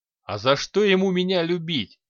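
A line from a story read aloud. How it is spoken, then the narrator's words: Chuckling. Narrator (Russian): хохотнул Киран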